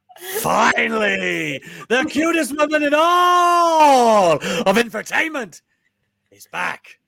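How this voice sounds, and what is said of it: Poor impression of The Rock. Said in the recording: “that was my best Rock impression ... That wasn't The Rock at all.”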